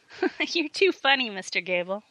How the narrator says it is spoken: laughed Amanda

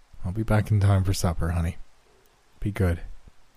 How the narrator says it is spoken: murmured

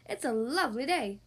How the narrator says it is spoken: barked Fox

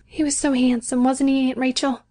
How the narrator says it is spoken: went on, in that patient voice of her

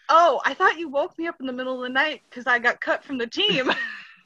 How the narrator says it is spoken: starts laughing, and he's like

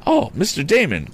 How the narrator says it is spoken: cried Tom

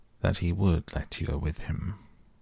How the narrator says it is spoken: in a very low voice, he said

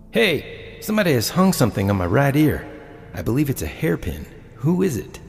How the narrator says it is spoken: One of the men exclaimed

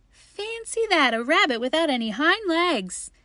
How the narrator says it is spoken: began to laugh

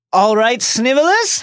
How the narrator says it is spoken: James said loudly

